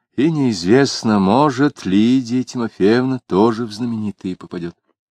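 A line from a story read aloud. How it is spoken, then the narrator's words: Added with a sigh. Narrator (Russian): вздохнув, прибавил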